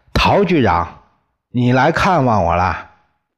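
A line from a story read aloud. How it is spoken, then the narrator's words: Warmly calling out. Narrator (Chinese): 李光头 立刻亲热的叫起来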